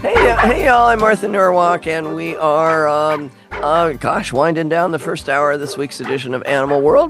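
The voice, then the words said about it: Worn-out, strained voice. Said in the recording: “I wore out my voice yesterday ... my voice is not the greatest today because I kind of wore it out yesterday”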